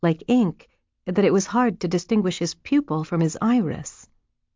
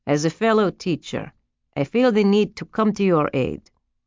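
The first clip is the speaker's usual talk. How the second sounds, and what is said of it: Vaguely Eastern European accent. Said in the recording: “She couldn't place his accent. Eastern European, perhaps?”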